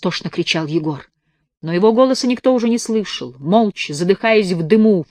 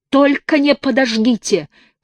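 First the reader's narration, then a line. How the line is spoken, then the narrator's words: Shouting. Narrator (Russian): кричал Егор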